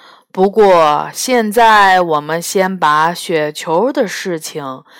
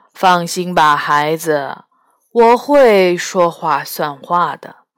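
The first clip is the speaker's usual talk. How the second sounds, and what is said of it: Majestic, authoritative voice. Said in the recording (Chinese): “用充满威严的声音说”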